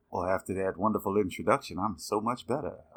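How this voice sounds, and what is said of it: Put-on sexy voice. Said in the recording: “I figured I'd put the sexy voice on for you listeners”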